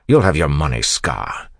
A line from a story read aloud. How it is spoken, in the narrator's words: Kelsier snapped